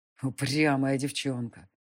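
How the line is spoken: Growling. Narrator (Russian): прорычал высший

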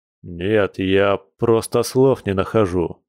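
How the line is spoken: Grumbled. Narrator (Russian): проворчал Борис

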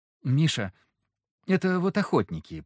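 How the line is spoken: Mumbled. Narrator (Russian): промямлил Андрей Михайлович

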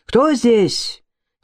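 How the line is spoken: Shout. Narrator (Russian): крикнул

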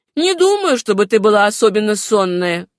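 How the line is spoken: Snide, mocking. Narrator (Russian): ехидно сказал Родерик

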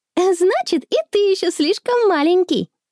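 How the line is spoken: Cheerful shout. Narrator (Russian): весело кричит Конни

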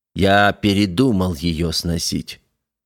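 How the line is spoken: Calm. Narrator (Russian): спокойно произнес Митин

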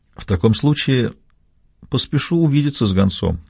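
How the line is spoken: Calm tone. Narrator (Russian): отвечал я спокойным тоном

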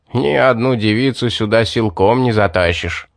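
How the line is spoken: Smug laughter. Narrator (Russian): Рассмеялся довольный собой маг

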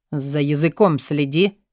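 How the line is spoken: Cold metallic fatherly rebuke. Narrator (Russian): металлическим тоном осекает отец

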